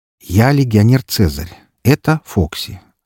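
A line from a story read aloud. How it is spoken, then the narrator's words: Forced calm, reassuring. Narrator (Russian): старался говорить спокойно, чтобы не напугать ее сильнее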